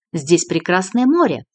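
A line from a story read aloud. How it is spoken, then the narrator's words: Cheerful, in Azerbaijani. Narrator (Russian): Знакомый Дронго весело сказал по-азербайджански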